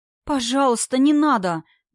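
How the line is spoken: Pleading. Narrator (Russian): взмолилась Ева

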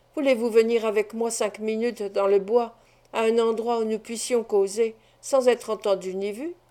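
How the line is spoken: Low voice. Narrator (French): il ajouta à voix basse

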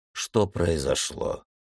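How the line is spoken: Quiet question. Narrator (Russian): тихо спросил полковник

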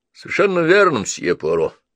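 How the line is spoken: Gloomy inspector. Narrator (Russian): мрачно произнес инспектор

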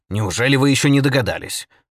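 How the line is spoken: Irritated exclamation. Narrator (Russian): раздраженно воскликнул отец Браун

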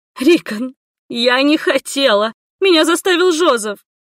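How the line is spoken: Sobbing reassurance. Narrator (Russian): всхлипывая, заверила Зульвия

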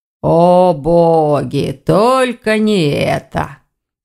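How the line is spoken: Sorrowful moan. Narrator (Russian): горестно простонал Вардван

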